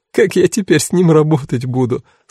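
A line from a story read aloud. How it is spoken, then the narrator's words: Groaning through laughter. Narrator (Russian): сквозь смех простонала Кара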